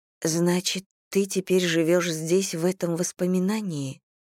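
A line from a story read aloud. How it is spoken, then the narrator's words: Plain question. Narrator (Russian): спросила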